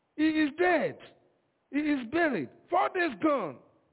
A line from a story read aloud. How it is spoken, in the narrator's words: screamed